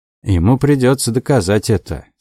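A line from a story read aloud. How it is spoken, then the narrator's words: Dry. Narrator (Russian): сухо сказал Дик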